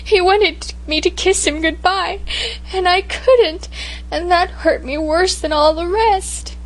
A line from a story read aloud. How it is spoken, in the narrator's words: I sobbed